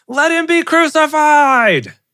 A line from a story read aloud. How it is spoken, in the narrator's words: yelling